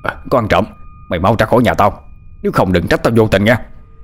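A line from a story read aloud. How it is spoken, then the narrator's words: Old man's loud shout. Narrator (Vietnamese): Lão hét lớn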